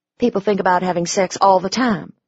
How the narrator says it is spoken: I said irritably

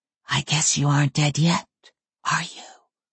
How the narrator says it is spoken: whispered

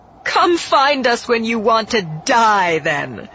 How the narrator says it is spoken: Phasma called back over her shoulder, laughing

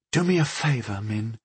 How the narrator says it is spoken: she whispered to me

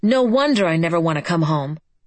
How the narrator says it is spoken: yelling

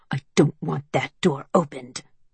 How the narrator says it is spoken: hisses

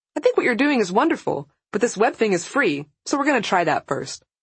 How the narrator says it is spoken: she remembers and laughs

